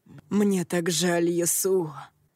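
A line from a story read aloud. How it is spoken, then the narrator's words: Muffled, hollow voice. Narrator (Russian): глухо произнес Ронин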